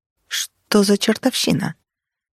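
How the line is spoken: Quiet desperate whisper. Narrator (Russian): Я шептала тихо и отчаянно

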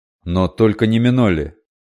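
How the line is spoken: Heated exclamation. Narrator (Russian): С таким жаром воскликнул Айлеми

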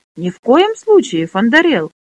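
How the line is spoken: Exclaimed. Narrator (Russian): воскликнула Лесса

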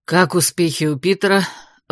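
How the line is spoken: Breathed out. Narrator (Russian): выдохнул Эрик

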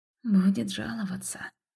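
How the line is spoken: Whisper. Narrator (Russian): прошептал кто-то

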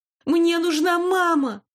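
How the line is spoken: Sudden scream. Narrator (Russian): внезапно закричала

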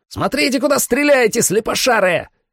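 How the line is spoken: Yelling. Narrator (Russian): заорал Сэм

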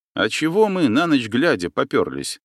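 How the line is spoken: Plain. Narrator (Russian): спросил я капитана

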